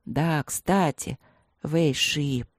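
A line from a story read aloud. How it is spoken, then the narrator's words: Singsong pensive mutter. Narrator (Russian): певуче и задумчиво пробормотал тигр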